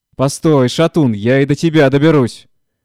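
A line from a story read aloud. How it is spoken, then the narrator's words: Worked-up old woman shouting. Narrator (Russian): кричала расходившаяся старуха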